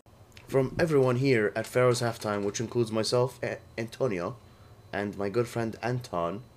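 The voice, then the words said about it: Weird put-on accent. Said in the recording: “I don't know why I'm talking in these weird accents today.”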